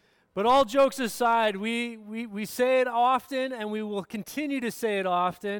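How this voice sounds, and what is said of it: Usual voice. Nothing is said of it.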